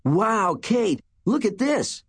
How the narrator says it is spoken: Mike cried

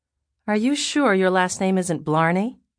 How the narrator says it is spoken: She asked dryly

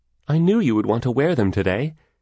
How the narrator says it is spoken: exclaimed

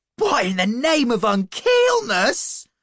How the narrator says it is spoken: I gasped

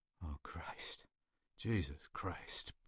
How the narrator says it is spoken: Peters moaned, the words gurgling

